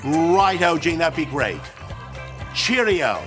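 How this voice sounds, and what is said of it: Put-on British accent. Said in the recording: “He'd affect this weird British accent ... Put upon British accent is weird”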